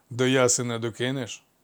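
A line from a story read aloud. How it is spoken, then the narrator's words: Centaur's calm question. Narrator (Ukrainian): спокійно запитав кентавр у Іфікла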